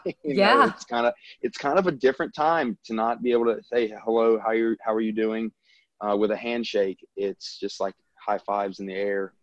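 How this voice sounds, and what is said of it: Southern US accent. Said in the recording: “I'm from the South. I mean, obviously everyone can probably tell by my accent”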